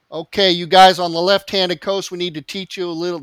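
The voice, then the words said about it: Put-on Tennessee accent. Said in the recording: “That's my best Stephen Blackwell Tennessee accent.”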